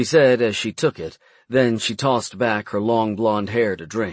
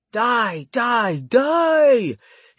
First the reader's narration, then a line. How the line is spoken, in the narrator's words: he yelled and pretended to fight off his imaginary enemies